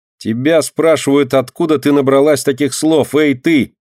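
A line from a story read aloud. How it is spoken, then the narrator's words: Mocking shout, boy. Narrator (Russian): насмешливо крикнул мальчик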